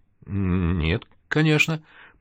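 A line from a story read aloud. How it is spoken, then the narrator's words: Stammering. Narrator (Russian): почему-то заикаясь, ответил Серега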